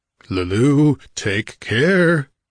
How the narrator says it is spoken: Cain exclaimed, a terrible menace in his voice

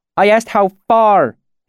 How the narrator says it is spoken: she snapped at him

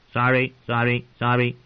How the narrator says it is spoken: Mormont's own raven had croaked

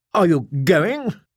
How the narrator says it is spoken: Norn asked anxiously

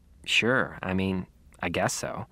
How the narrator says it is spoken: mumbled

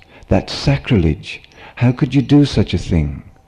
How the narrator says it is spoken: cried one of Eisai's disciples

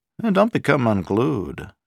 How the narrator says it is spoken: Sharp said smoothly

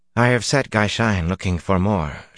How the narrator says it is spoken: she said stiffly

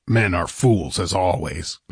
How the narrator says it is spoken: grunted Conan

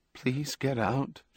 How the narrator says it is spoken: quavered

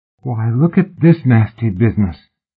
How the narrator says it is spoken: Tom suddenly declared in a muffled, dreamy voice

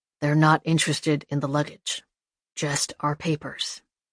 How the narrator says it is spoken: murmured the old man

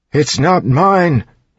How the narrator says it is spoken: he yelped

